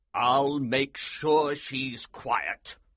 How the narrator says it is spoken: the Colonel said grimly

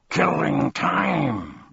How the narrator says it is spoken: roared the dog, so furiously

